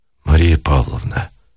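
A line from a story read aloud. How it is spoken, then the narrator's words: Hoarse, ashamed tender voice. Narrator (Russian): охрипшим голосом сказал, проклиная себя Никитин, охваченный стыдливой и благодарной нежностью к ней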